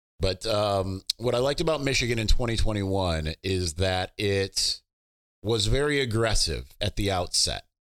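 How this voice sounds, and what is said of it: Strained, fading voice. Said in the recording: “I'm suddenly losing my voice, so apologies.”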